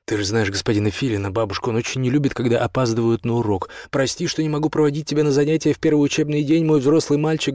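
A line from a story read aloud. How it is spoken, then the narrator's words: Loud call after someone. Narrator (Russian): громко крикнул Бартоломео вслед сыну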